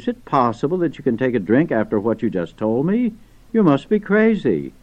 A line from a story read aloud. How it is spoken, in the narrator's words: cried